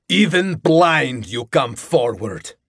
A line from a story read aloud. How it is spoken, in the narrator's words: Gilgamesh roared